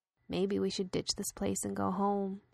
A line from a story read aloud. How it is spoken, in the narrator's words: he murmurs in Derek's ear, barely even vocalizing